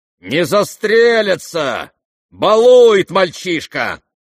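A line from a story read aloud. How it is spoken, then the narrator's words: Indignant pompous shout. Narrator (Russian): С негодованием и с апломбом неожиданно прокричал генерал Иволгин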